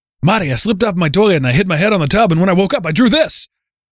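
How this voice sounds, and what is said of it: Bad impression, old Jewish grandpa voice. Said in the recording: “That was a terrible impression. ... I made him a Jewish grandpa. ... I thought you were doing like Mario or Luigi.”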